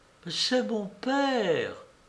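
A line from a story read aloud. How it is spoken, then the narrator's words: Theatrical exclamation. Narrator (French): à bout d'éloquence, elle s'écrie, comme au 5e acte d'un drame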